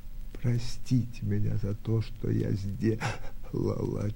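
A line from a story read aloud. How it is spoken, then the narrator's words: Faint broken whisper. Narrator (Russian): чуть слышным, прерывным шепотом проговорила Наташа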